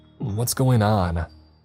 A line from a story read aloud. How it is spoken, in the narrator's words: cried